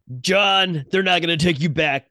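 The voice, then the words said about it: Imitates another person's voice. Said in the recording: “I'm trying to do Lawrence Fishburne... Not very good, though.”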